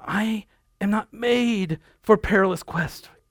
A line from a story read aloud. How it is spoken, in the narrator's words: cried